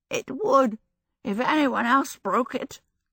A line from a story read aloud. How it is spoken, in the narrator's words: Calcifer said hoarsely